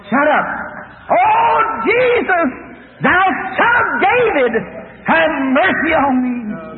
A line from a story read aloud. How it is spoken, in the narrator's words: The rest of them around here hollering also